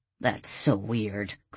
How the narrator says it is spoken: Chris mumbled

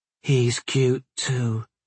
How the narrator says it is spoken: Tasha said softly

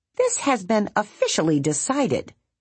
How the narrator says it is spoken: Bongo said firmly

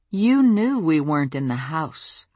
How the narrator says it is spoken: I said slowly

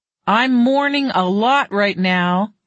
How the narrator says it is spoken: yelled another

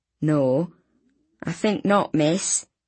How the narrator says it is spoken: he said sadly

